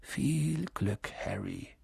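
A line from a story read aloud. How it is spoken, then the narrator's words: Murmured. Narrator (German): murmelte er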